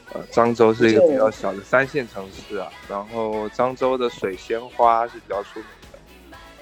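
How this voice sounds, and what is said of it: Strong Fujian-accented Mandarin. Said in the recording (Chinese): “毕竟我是口音最突出的一个人嘛 ... 我是来自福建漳州的”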